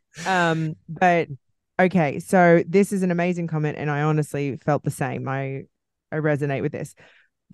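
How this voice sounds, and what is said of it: Australian accent. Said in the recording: “my Aussie accent ... I butcher it because of my Australian accent”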